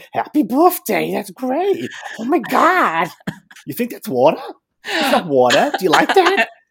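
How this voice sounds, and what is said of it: Imitates another person's voice. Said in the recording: “went from, first of all, your own Northern English accent into a really, really good Teresa, like a scarily good Teresa”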